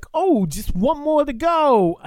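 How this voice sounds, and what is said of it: Weak attempt at New York accent. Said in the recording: “he's got such a thick New York accent ... I can't do a good New York accent.”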